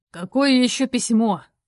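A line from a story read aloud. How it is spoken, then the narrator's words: Irritated question. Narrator (Russian): раздраженно спросил Виха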